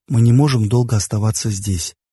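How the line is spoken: Soft. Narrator (Russian): мягко сказал я

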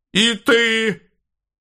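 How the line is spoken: Barked. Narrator (Russian): рявкнула ему вслед антиопа

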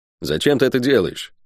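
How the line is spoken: Quiet question. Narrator (Russian): негромко спросил наемник

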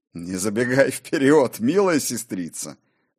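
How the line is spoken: Laughing. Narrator (Russian): засмеялся и Кор

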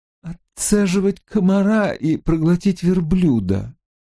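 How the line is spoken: Sad smiling voice. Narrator (Russian): грустно улыбнулся он

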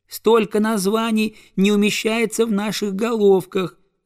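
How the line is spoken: Squeaking goslings. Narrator (Russian): запищали гусята

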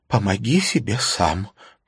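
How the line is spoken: Whispered with smile. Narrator (Russian): прошептала она и улыбнулась

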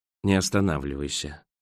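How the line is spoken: Sighing. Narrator (Russian): вздохнул Роэн

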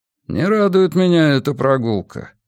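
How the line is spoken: Dry. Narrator (Russian): сухо высказался он

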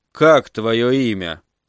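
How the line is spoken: Quiet question. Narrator (Russian): тихо спросил Питер

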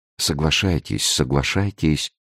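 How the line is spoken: Quick whisper. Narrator (Russian): быстро прошептал Арамис

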